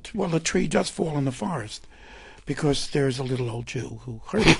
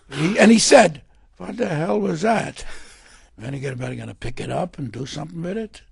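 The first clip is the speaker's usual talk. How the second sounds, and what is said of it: Old Jewish man, Yiddish accent. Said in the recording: “That's a wonderful accent. It reminds me of Billy Crystal, whose definition of Yiddish is a combination of German and phlegm.”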